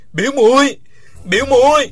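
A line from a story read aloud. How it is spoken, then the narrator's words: Loud desperate shout. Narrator (Vietnamese): Uông Khiếu Phong gào to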